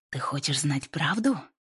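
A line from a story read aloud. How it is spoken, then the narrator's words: Hissed. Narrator (Russian): прошипела Кэтрин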